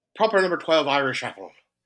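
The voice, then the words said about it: Put-on Irish accent. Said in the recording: “Why do I talk like this when I'm talking like an Irishman? ... Like I'm like a gay pirate.”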